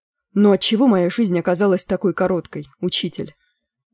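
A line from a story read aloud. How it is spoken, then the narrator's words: Sighing. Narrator (Russian): вздохнул Гвидион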